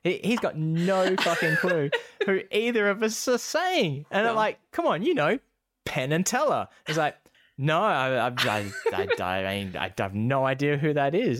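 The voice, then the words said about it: Non-rhotic accent, drops R sounds. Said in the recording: “I don't pronounce the R's in my accent”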